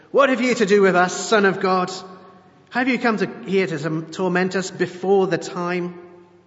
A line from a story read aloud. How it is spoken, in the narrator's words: Suddenly they shouted